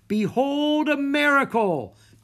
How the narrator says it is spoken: Jack shouted down to Bess and Harry

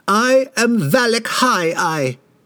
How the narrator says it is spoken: he screeched suddenly

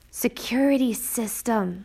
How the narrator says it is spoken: Mateus muttered

